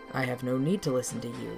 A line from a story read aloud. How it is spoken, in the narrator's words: Kijinga says